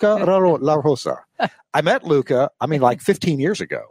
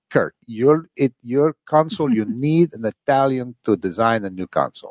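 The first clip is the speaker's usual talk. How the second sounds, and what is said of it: Odd imitated Italian accent. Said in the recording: “That's a very odd accent. And I what is that? Oh, my gosh. That is not Luca La Rosa's accent. ... Oh, no. See, that's what he sounds like to me.”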